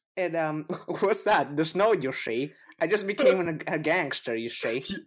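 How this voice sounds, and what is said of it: Old-timey gangster voice. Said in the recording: “Is that a gangster? ... That's an incredible gangster, man.”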